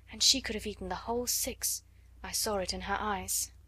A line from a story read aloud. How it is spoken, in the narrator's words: she said in a low voice